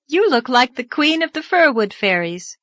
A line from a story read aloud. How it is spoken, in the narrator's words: called Anne merrily